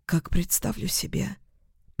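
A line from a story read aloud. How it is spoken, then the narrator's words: Nervous whisper. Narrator (Russian): прошептала я, нервно передернув плечами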